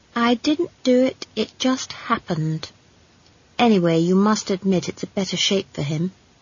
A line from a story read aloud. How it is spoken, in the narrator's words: said Esk evenly